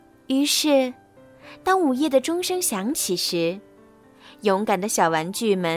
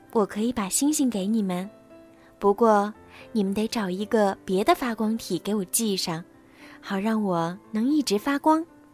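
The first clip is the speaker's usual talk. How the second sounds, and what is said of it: Quiet, hushed character voice. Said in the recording (Chinese): “月亮小声说”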